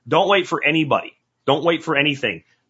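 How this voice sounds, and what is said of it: Yelling, loud emphatic delivery. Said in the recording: “sorry for yelling”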